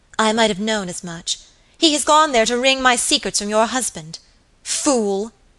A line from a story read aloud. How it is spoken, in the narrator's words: she exclaimed ... in a transport of anger